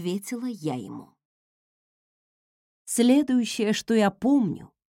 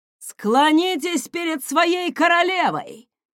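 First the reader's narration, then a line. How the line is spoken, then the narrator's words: Roaring. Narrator (Russian): взревел он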